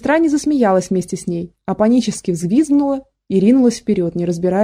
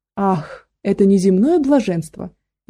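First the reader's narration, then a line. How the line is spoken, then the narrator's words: Loud laughter. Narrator (Russian): она расхохоталась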